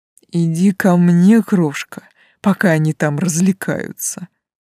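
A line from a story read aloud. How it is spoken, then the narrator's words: Menacing hiss. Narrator (Russian): прошипел тип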